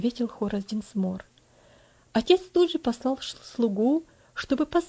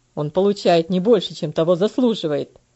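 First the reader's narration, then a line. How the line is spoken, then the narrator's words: Angry reply. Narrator (Russian): Сердито ответил ее муж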